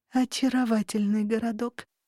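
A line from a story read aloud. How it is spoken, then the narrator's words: Admiring breath. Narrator (Russian): восхищённо выдохнула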